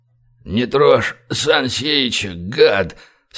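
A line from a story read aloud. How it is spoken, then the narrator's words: Strained breathless gasp. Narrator (Russian): с трудом выдохнул Большой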